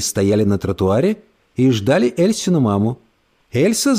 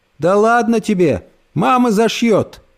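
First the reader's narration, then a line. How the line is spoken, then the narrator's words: Cheerful old woman's voice. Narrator (Russian): бодрым голосом сказала бабушка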